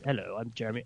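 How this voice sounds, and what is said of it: Weak Jeremy Irons impression. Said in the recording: “do my Jeremy Irons impression. ... do I have a Jeremy Irons? ... No, I don't have a Jeremy Irons impression.”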